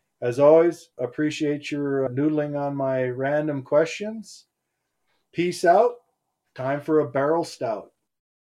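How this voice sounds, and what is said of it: Minnesota or South Dakota accent. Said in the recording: “Minnesota accent ... Or South Dakota”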